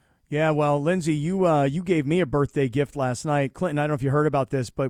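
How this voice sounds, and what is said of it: Usual voice. Nothing is said of it.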